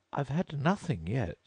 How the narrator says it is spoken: Alice replied in an offended tone

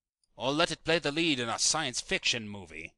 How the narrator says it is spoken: snapped Anderson

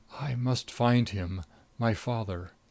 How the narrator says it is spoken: he said brokenly to Hughes

